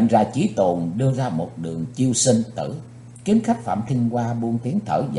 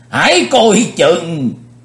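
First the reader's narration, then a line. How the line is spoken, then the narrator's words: Old man's sudden cry. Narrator (Vietnamese): lão Tây Nhạc Lăng Di Phong cũng phải bật kêu lên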